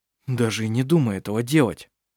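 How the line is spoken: Frightened. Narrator (Russian): испуганно произнес Хейке

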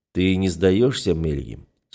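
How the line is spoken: Smiling question. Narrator (Russian): с улыбкой спрашиваю я

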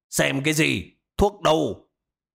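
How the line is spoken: Old man's sudden shout. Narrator (Vietnamese): Ông già đột nhiên quát lên một tiếng

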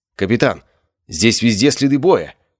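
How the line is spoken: Shouted, woman. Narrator (Russian): крикнула лучница

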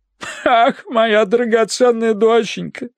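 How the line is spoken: Sobbing. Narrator (Russian): рыдала она

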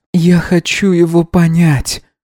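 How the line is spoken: Sighed. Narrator (Russian): вздохнула Исмира

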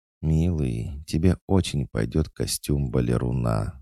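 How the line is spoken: Tender whisper. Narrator (Russian): ласково прошептала она

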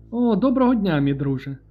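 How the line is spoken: Cheerful exclamation. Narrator (Ukrainian): весело вигукнув Гісті

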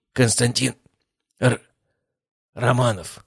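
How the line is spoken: Grumbled. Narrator (Russian): пробурчал Владыкин

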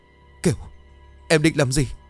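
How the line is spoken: Frightened stammer. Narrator (Vietnamese): Nghĩa vì sợ, anh lắp bắp

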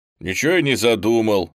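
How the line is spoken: Displeased mutter. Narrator (Russian): недовольно пробурчал Саша

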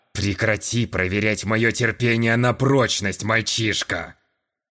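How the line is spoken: Old sailor growling. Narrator (Russian): Натурально зарычал старый морской волк

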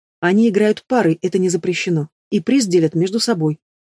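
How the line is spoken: Calm explanation. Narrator (Russian): спокойно объяснила Дриада

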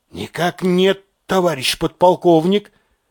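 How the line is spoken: Forced out with difficulty. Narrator (Russian): кое-как и выдавил Касаев

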